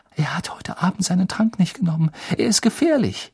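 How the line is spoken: Gasping. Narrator (German): japste Hermine

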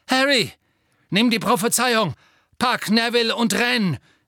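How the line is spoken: Shouting. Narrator (German): rief Sirius

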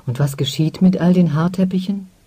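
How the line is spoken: Plain. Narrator (German): fragte die Blonde

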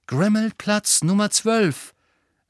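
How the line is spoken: Loud and clear. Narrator (German): sagte Harry laut und deutlich

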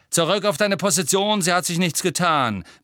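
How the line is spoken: Barked. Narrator (German): bellte Angelina

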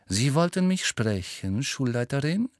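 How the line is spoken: Plain. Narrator (German): sagte Snape

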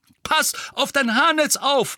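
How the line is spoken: Called out. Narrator (German): rief Mandanges

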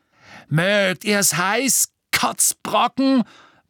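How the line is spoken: Bellowing while running. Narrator (German): brüllte Crabbe, während er rannte

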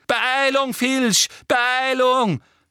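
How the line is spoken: Shrieked. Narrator (German): kreischte Umbridge

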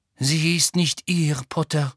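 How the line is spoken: Sad. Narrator (German): sagte Madame Pomfrey traurig

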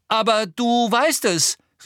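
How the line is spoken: Calling out. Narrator (German): rief Harry

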